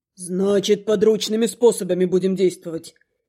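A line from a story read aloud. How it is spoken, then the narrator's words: Smirking snort. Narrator (Russian): Хмыкнул Рит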